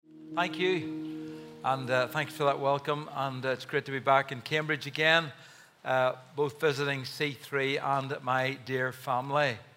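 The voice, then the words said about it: Accent unfamiliar to English listeners. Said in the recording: “it always takes folks in England a couple of minutes to tune their ears to my accent”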